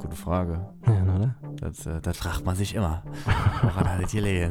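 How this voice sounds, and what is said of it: Usual voice. Nothing is said of it.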